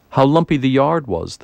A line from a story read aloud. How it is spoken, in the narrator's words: the hostess exclaimed